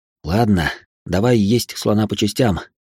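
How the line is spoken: Heavy sigh. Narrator (Russian): тяжело вздохнул я

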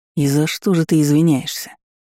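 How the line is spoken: Growled. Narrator (Russian): рыкнул Аарон

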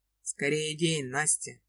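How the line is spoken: Tired, lost sigh. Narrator (Russian): Вздыхает Сокольский, но не раздраженно, как обычно, а как-то устало и потеряно, просит

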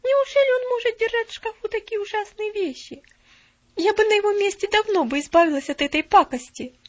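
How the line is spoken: Laughing. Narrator (Russian): Нэнси засмеялась

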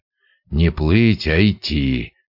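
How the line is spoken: Grumbled. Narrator (Russian): буркнул он

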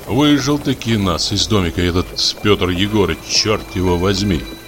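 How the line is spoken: Angry grumbling. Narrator (Russian): ворчал я, не на шутку рассердясь

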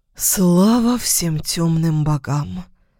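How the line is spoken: Relieved exhale. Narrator (Russian): Выдохнул я с таким облегчением

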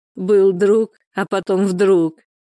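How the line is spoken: Laughing. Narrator (Russian): рассмеялась Валентина

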